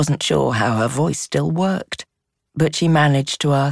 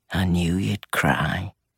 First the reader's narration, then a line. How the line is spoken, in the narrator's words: murmured